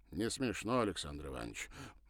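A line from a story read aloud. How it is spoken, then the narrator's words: Grumbled. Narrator (Russian): буркнул Львов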